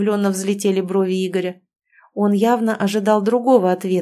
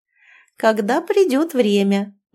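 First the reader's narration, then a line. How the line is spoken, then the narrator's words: Playful purr. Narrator (Russian): мурлыкнула я, становясь шаловливой кошечкой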